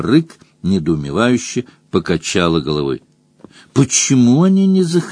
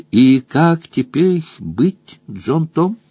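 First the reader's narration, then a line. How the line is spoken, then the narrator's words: Soft. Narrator (Russian): мягко спросила Роза Рык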